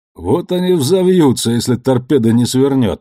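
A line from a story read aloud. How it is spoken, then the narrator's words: Snorting. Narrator (Russian): хмыкнул Амос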